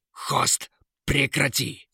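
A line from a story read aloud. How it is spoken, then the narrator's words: Loud bark. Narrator (Russian): гаркнул король-дворец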